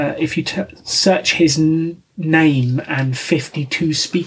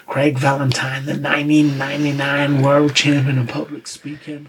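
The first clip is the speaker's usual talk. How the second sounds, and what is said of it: Put-on American accent. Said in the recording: “is that a Texas boy? ... That's my best American accent.”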